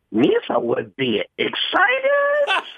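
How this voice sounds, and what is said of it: Jar Jar Binks character voice. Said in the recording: “Jar Jar Binks was the impersonation ... That was a great impression.”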